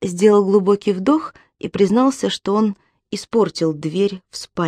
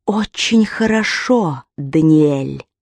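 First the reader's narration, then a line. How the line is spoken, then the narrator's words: Hissed in ear. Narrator (Russian): прошипел ему на ухо голос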